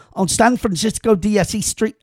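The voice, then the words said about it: Sudden accent on a street name. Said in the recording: “I did it with an accent... I don't know why I got an accent there all of a sudden”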